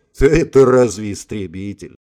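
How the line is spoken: Scoffing snort. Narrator (Russian): фыркнул Волков

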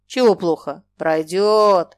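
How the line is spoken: Joyful growl. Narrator (Russian): рычал он, радостно

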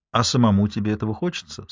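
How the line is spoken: Soft question. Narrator (Russian): спросила я мягко

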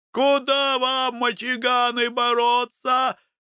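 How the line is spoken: Joyful crowd shouting. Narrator (Russian): радостно кричала толпа, довольная поражением Терешки

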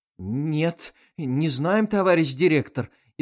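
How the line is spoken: Frightened voices, several men. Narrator (Russian): испуганным голосом произнесли его помощники

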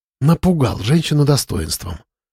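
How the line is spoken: Playful whisper. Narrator (Russian): прошептала Вичканова, игриво прикусив губу

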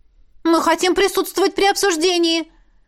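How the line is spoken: Militant exclamation. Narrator (Russian): воинственно воскликнула я

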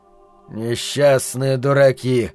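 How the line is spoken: Muttered. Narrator (Russian): пробормотал Ричард

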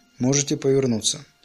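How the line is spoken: Plain. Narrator (Russian): сказал он

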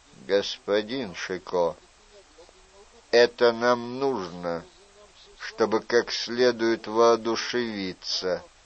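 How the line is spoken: Calm. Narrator (Russian): спокойно ответил де Морне

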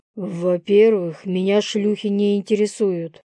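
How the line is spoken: Growl. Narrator (Russian): прорычал я

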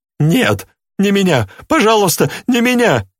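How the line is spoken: Frightened babbling. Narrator (Russian): лепетал похудевший

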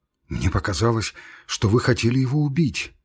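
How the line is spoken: Muttering. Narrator (Russian): бормотал он

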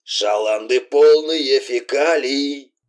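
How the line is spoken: Hoarse voice from tape recorder. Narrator (Russian): хрипел из магнитофона голос вездесущего жиганщика

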